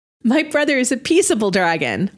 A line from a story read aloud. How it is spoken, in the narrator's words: Tilly giggled